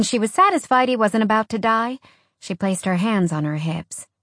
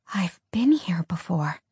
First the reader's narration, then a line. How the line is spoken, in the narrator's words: she whispered